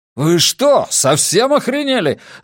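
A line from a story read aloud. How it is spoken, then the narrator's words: Yelling. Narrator (Russian): заорал Гарри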